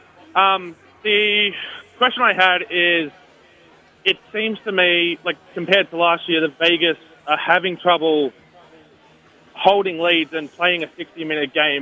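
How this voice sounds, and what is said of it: Australian accent. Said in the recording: “some Americans have trouble understanding the Australian accent”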